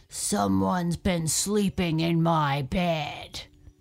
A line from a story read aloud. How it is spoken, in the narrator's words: he grumbled